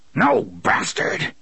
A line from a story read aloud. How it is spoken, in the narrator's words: Roland snarled